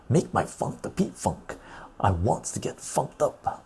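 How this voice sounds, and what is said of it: Funk singer voice impression. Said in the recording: “I'm trying to do my best funk impersonation.”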